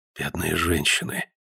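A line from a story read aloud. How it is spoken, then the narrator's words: Whisper. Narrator (Russian): прошептал Гленарван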